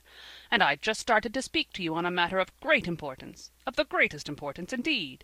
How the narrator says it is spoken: repeated irritably

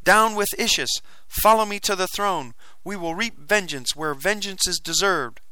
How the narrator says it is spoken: I cried

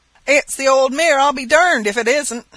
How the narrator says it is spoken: cried one of the older boys, at the top of his voice

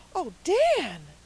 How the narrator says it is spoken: cried Felicity and Cecily together, in a chorus of horror

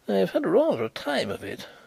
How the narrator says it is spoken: reported with a nervous laugh

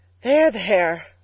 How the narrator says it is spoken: cried Mrs

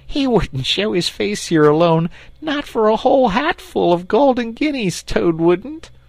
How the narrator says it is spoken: said the rat, laughing heartily

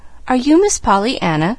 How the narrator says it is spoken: she faltered

